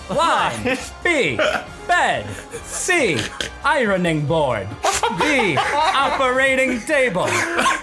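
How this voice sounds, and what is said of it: Imitates a game show host voice. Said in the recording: “that impression ... that sounds like John Mulaney doing Regis Philbin”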